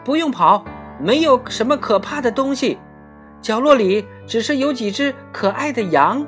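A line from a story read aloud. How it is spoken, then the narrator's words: Calling out. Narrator (Chinese): 大拇指他喊着让他们回来，并且说道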